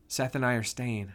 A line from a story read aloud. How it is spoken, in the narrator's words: I whispered in her ear